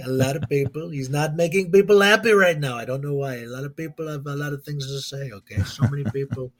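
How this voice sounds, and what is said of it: Imitates another person's voice. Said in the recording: “Do a quick impression. What's your best impression? ... Trump ... He's a great impression. I love doing it. I'm probably the best at doing it.”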